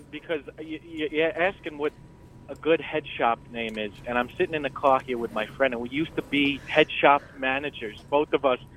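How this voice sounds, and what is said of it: New York or New Jersey accent. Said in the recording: “I like your accent. ... Yeah, it is good. ... It's New Jersey accent? ... It's cute. ... I'm from New York”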